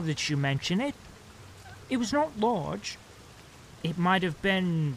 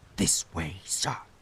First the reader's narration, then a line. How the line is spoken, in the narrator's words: said he in a low voice